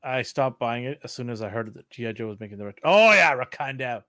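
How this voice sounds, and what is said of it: Usual voice. Nothing is said of it.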